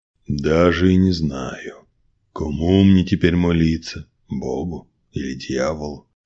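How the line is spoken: Grumbling. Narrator (Russian): проворчал Василий

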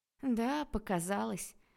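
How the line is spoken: Sigh. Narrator (Russian): вздохнул Арчи

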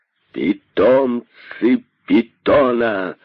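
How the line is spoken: Shrill, hissing voice. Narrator (Russian): Пронзительным голосом, одолевая природное шипение, продолжал он

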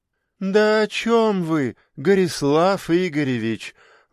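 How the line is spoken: Sighing. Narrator (Russian): вздохнула

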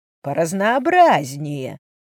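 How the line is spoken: Silky, insinuating. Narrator (Russian): Вкрадчиво ответил он

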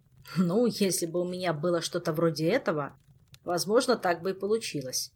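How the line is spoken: Grumbling. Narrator (Russian): проворчал Кантер

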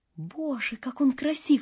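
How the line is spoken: Whisper. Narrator (Russian): шепнула дюймовочка ласточке

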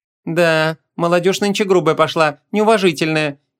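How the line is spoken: Snide, smiling. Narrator (Russian): ехидно улыбнулась Муав

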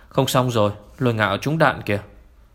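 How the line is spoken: Loud shout. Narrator (Vietnamese): Nguyên Thái hét lớn

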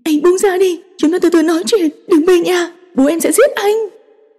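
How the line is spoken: Near shout. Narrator (Vietnamese): Cô Dư gần như hét lên

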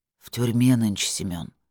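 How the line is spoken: Sullen mutter. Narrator (Russian): хмуро буркнул Виталик

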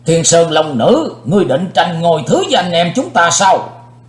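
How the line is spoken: Angry loud shout. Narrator (Vietnamese): Đại Ái Phương Sóc dĩ vô lượng tức giận quát to lên

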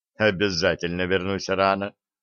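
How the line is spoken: Loud. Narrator (Russian): громко сказал

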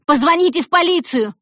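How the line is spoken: Yell. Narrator (Russian): заорала Зои

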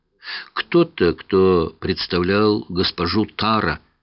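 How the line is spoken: Plain. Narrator (Russian): ответила она

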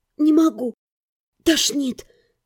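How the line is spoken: Hoarse. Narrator (Russian): прохрипела

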